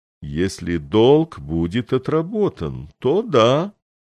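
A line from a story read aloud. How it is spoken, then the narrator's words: Slow agreement. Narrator (Russian): медленно согласился посол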